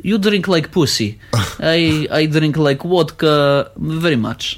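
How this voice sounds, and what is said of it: Put-on Russian accent. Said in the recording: “my bad Russian impression ... he sounded almost Scottish there for a second ... it's actually quite a good Russian accent”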